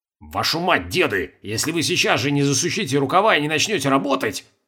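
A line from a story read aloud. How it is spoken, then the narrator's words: Angry hiss. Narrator (Russian): зашипел Колобков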